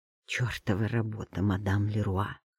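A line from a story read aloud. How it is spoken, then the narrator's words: Annoyed mutter. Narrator (Russian): пробормотал он с досадой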